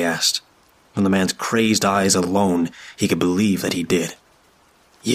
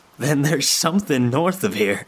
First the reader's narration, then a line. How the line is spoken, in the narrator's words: he said, laughing